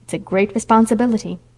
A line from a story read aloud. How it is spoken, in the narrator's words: said Aunt Jamesina solemnly